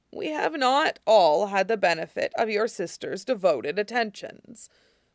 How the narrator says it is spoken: Iroh said dryly

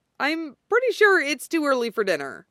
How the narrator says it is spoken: Hizashi blurts out like an idiot

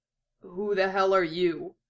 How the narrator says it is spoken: Roy croaked, his voice a hoarse rasp

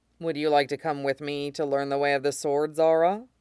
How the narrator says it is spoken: He asks

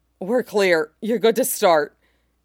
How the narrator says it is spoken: His voice was tight with desire as he said

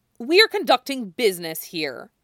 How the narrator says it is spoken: Stella snaps at Derek

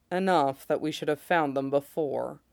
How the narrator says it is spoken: Mace says grimly

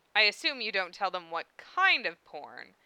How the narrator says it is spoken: Issei chuckled

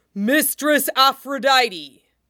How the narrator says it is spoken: Brontes shakes himself out of his reverie and uses his powerful lungs to bellow

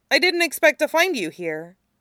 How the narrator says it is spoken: he blurts out

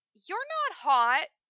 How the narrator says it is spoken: she whines

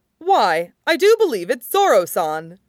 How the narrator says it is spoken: Brooke exclaims, gleefully, like a child

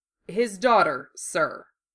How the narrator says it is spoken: Uramura said firmly

